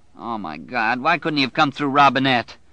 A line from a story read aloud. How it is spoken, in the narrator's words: Bobby Terry whined